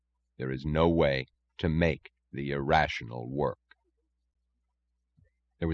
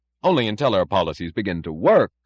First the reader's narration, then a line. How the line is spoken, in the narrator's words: cried Dr